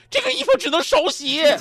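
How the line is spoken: Shouting. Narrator (Chinese): 大喊

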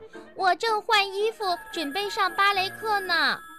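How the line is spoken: Calling from upstairs. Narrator (Chinese): 小熊妹妹从楼上喊道

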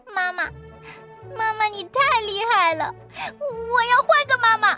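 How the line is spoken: Startled, aggrieved crying. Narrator (Chinese): 小老鼠吓了一跳，委屈的哭了

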